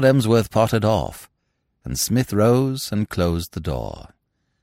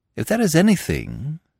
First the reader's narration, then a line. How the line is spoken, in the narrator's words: said Smith kindly